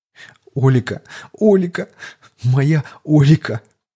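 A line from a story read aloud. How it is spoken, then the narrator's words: Sobbing harder. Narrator (Russian): еще пуще зарыдал староста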